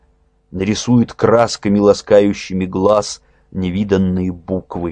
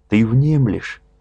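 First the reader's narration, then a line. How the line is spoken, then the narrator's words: Tender question. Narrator (Russian): спросил ласково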